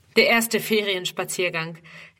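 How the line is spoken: Laughing explanation. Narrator (German): erklärt er lachend

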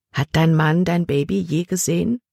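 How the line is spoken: Plain question. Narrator (German): fragte sie

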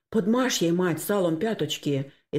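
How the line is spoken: Frightened speech. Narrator (Russian): испуганно проговорил Максим

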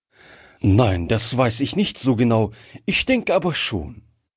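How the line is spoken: Plain. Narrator (German): antwortete Oberst Plath

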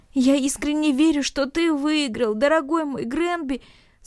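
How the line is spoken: Speaking while sobbing uncontrollably. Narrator (Russian): сказал Ноэль, безудержно всхлипывая

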